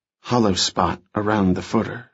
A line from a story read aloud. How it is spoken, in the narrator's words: murmured